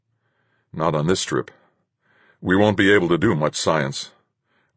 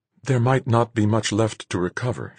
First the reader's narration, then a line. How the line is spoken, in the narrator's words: she said, very gently